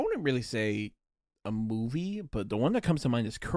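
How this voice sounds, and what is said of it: Usual voice. Nothing is said of it.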